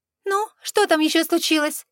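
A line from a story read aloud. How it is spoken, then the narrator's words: Slightly sharp question. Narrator (Russian): Поинтересовалась она чуть более резко, чем намеревалась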